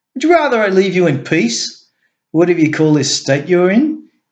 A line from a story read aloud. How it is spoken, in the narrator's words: He snapped at him